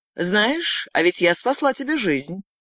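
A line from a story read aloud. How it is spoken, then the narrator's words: Casual, relaxed tone. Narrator (Russian): сказала его собеседница свободным тоном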